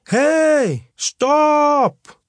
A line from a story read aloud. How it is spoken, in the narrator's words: he shouted out